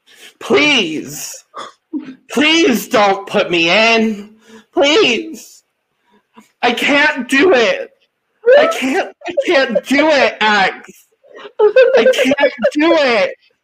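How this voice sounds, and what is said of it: Imitates another person's pleading voice. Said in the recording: “I'm going to do my Taylor and Tiffany as Britney impersonation”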